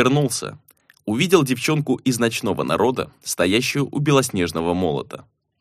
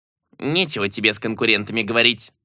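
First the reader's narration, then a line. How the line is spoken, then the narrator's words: Grumbling. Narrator (Russian): буркнул лилипут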